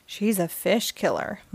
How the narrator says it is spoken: muttered Peach

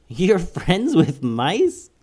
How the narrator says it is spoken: laughed

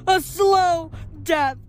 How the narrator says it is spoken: screamed

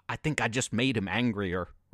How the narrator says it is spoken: Robert said

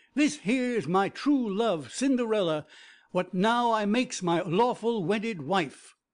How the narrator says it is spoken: the prince, he cries in a ringing voice

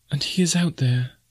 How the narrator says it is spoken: said in an awe-hushed whisper

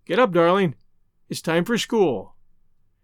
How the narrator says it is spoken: she would say mournfully

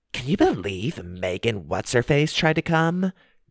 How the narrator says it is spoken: said in a snotty tone

